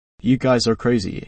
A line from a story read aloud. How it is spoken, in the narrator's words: he says